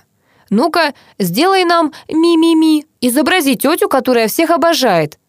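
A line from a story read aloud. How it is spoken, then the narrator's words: Yelling. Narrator (Russian): заорал Паша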